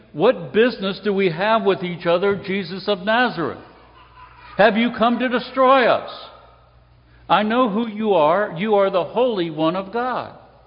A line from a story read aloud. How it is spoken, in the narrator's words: he cried out, saying